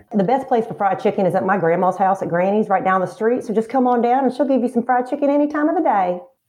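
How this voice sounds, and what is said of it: Put-on Southern American accent. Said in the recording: “you can do a bunch of different accents. Okay. So you got Southern ... Like Southern.”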